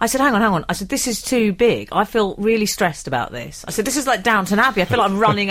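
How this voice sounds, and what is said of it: Usual voice. Nothing is said of it.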